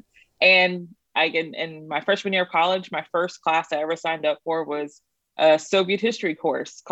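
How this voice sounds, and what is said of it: Texas accent. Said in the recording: “I'm from Texas, if you can't tell by my accent.”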